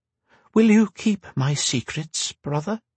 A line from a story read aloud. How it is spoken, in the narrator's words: Rhea asked, her voice as even as she could make it, though it trembled on the edges